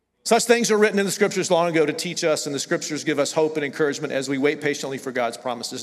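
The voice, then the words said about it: Southern US accent. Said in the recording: “I'm from the South... the southern accent still comes out”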